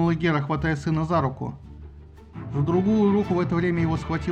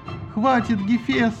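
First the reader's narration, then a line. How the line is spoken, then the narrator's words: Whimpering. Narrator (Russian): захныкал скамандр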